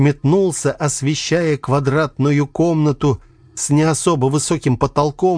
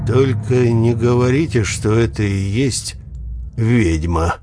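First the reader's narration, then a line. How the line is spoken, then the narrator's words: Flat, colorless voice. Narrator (Russian): бесцветным голосом промолвил Витя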